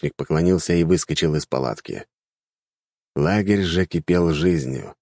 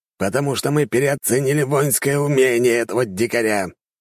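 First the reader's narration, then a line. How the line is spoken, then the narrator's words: Growl, calming down. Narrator (Russian): рыкнул генерал, который уже постепенно успокаивался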